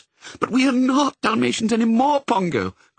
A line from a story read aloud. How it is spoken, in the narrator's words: cried Mrs